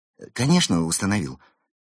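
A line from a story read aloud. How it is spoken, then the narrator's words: Frightened lie. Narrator (Russian): испуганно соврал Кирилл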